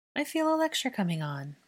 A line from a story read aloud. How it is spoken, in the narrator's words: Hermione sighed